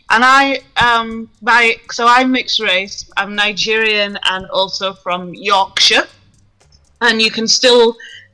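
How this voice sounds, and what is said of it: Yorkshire English accent. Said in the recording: “lovely accent going on there, sister.”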